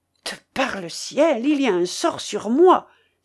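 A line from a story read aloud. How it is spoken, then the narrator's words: Exclaiming. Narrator (French): s'écria Bois Guilbert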